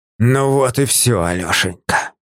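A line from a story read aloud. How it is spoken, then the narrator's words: Barely audible hiss. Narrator (Russian): прошипел он так тихо, что я едва расслышал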